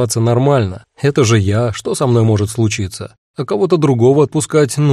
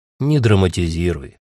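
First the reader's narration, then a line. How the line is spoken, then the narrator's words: Gentle. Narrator (Russian): мягко сказал сэр Шурф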